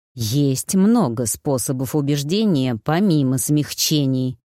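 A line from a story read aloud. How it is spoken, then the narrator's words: Sinister hiss. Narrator (Russian): зловеще прошипел Хвар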